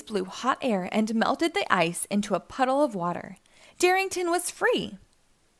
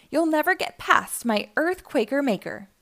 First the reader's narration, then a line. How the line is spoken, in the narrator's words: he laughed